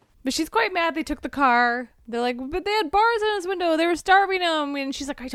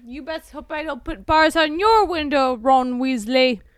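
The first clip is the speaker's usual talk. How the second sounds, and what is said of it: Put-on accent voicing a character. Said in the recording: “Accents are terrible. ... My accent is terrible?”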